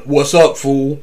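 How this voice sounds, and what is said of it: Mr. T impression. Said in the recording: “Channeling Mr. T.”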